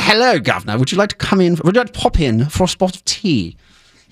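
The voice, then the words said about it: Exaggerated proper English received pronunciation. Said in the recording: “I have to do an impression of myself doing an impression ... he's trying to look for a received pronunciation, which I do not have ... an impression of somebody being very, very proper in English”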